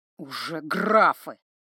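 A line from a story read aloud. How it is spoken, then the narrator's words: Growl through teeth. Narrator (Russian): сквозь зубы рыкнул Синекрылый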